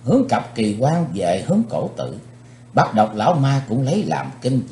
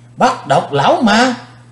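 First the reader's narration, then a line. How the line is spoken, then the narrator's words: Crowd shouting in unison. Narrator (Vietnamese): Quần hùng đồng thanh kêu lên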